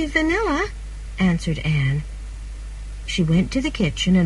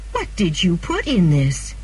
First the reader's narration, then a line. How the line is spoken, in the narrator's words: she cried